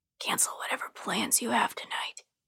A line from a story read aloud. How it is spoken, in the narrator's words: he whispers to me